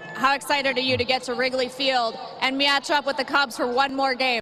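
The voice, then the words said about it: Wisconsin accent. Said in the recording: “Wisconsin accent.”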